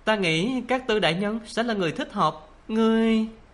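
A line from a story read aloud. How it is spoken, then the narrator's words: Trembling voice. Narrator (Vietnamese): Lăng Đế Tư run run giọng nói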